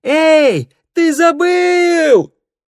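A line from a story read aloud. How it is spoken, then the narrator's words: Calling after someone. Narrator (Russian): крикнула вслед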